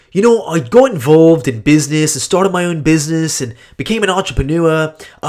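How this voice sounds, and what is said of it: Imitated Australian accent, done poorly. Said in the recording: “this is going to be me totally butchering his accent ... he was from Australia”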